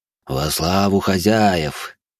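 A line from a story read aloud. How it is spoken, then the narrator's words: Booming drone. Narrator (Russian): прогудел наместник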